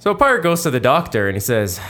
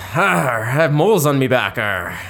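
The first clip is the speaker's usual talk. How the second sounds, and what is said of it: Pretty good put-on pirate accent. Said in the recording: “That was a pretty good pirate accent there”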